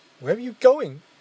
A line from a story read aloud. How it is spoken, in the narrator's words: Leo called out